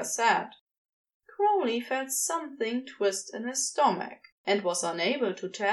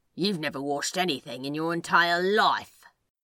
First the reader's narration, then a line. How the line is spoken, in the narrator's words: Crowley grumbled